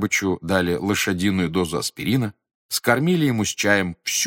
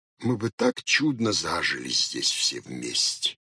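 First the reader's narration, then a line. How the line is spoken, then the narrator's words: Delirious tearful mumble. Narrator (Russian): бормотал он в бреду, заливаясь горючими слезами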